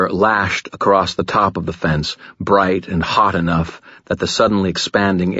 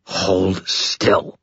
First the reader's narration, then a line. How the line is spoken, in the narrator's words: snarled